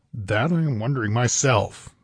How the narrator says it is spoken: grunted Tarascus

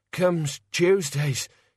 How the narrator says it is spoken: he panted

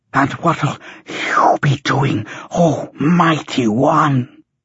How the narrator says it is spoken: Howler, panting, asked

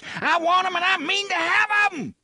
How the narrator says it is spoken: TikTok leaned forward, screamed into Jake's face

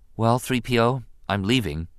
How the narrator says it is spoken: Anakin said solemnly

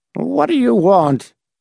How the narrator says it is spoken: quavered in a thin, whining voice

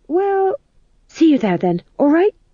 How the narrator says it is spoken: said the fool desperately

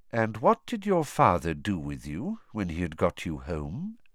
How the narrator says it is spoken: said Dumbledore quietly

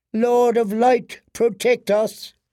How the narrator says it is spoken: cried Queen Selyse

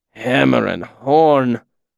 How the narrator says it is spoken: Will said wearily

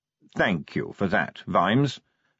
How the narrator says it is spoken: said, turning around sharply

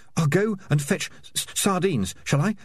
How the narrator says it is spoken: stammered

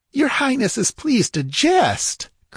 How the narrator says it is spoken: cried Thespides, his aristocratic features darkening

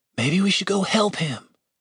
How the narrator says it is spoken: Julian whispered to Dave

